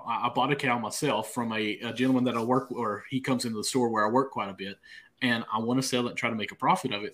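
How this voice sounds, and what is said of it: Southeastern Kentucky accent. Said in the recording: “I have an accent. I'm from the dirty southeastern part of Kentucky.”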